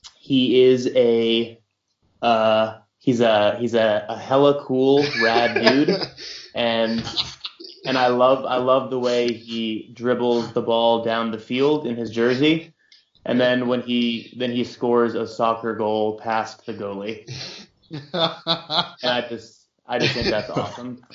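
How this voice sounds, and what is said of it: Bad put-on American accent. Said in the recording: “doing a bad impression of an American”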